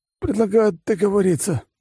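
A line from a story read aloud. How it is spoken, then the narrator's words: Wounded man's rasp. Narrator (Russian): прохрипел раненый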